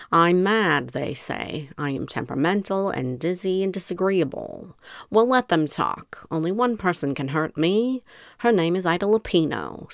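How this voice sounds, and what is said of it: Old Hollywood film broad accent. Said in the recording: “now I know she's British, but we've got to give her the universal film broad accent”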